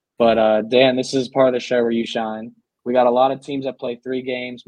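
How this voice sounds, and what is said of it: Pittsburgh accent. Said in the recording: “Still coming down from the flu, and I feel it. I feel it today. My Pittsburgh accent is catching up with me.”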